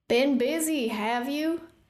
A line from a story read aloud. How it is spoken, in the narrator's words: Hecaton's voice boomed from inside the chamber